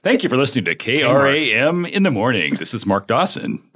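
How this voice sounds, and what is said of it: Announcer-style radio voice. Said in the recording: “what's your radio voice? ... That's actually something that would pass.”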